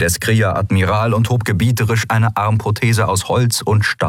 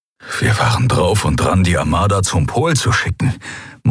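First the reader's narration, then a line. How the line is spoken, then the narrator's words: Horrified murmur. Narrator (German): murmelte er, entsetzt darüber, wie fatal diese Entscheidung gewesen wäre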